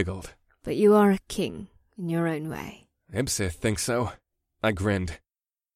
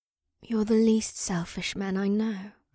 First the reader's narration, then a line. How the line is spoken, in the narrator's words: the shaman breathed